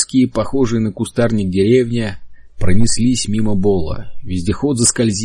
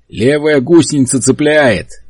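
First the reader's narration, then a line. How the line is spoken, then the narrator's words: Shouted. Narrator (Russian): крикнул Генри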